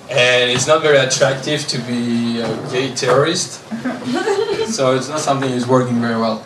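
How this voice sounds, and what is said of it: French accent. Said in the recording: “because of my French accent, I kind of sound gay”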